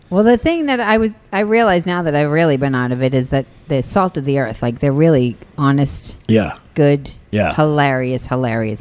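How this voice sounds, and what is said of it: Boston accent. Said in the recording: “from my voice. And my accent ... I just have to drop the accent ... Dorchester? ... Dorchester.”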